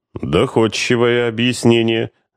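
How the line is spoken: Officer's gloomy admission. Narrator (Russian): мрачно признал подполковник

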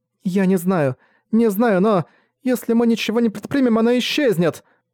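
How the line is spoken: Desperate tone. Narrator (Russian): Сказала Энна Суона отчаянным тоном

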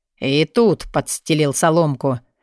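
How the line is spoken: Growled. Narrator (Russian): прорычал Алви

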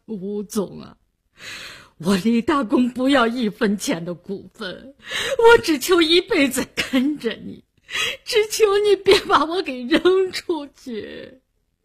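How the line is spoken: Crying. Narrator (Chinese): 李大公哭了，他哭着说

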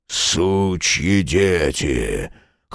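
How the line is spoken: Hoarse drunken voice. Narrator (Russian): хриплый, совершенно пьяный голос

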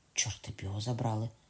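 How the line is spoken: Muttered. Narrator (Ukrainian): пробурмотів Беарниць

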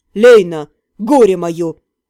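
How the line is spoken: Angry growl. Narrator (Russian): Разозленно рыкнул Кертен

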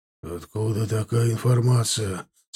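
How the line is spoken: Hoarse question. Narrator (Russian): спросил он хрипловато

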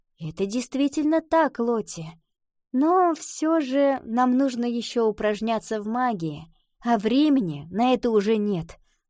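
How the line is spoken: Sighing. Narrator (Russian): вздохнула Ива

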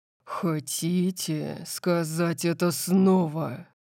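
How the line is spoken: Low-voiced question. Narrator (Russian): спросил Дариус низким голосом

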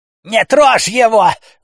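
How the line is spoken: Woman screaming. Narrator (Russian): завопила женщина

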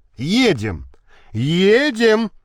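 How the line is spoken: Shouting. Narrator (Russian): закричал Никитин

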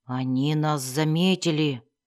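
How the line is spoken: Muttered. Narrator (Russian): пробормотал один из вербигов

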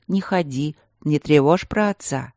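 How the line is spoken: Soft warning. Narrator (Russian): зеленые ели мягко предупреждая

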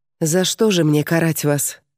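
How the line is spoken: Quiet, sad question. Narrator (Russian): спросила Клеопатра тихим печальным голосом

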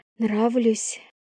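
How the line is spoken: Breathy exhale. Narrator (Russian): Выдохнула она

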